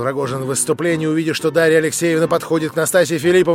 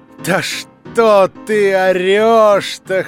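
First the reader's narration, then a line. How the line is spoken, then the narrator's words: Laughing loudly. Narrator (Russian): хохотала на него Настасья Филипповна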